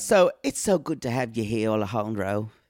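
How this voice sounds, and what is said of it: Exaggerated put-on accent. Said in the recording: “I'm going to do one and it's going to be offensive.”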